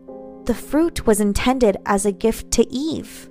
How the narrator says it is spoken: Samael hissed

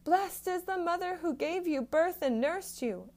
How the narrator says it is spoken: a woman in the crowd called out

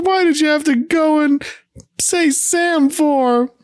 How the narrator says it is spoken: She tearfully

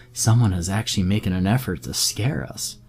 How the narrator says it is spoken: I said with a light laugh

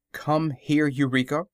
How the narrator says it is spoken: she said

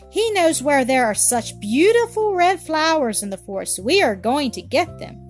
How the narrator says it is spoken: cried Rita in great eagerness

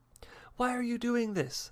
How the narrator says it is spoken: the man called out

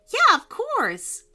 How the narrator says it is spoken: cried

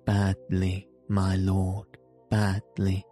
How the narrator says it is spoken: replied Mr

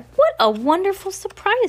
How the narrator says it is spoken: she exclaimed

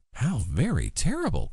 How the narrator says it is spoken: cried the princess

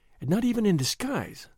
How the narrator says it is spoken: she murmured

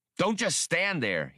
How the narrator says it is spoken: he snarled

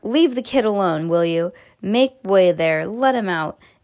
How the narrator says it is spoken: the shopkeeper shouted

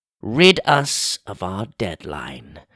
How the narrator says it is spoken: Lonk said solemnly

